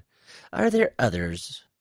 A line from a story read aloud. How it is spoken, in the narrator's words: Quiss laughed again